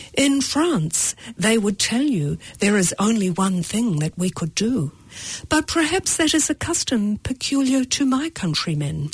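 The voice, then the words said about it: Bad put-on French accent. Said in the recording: “that was a bad French accent... I should have actually read it in a proper French accent”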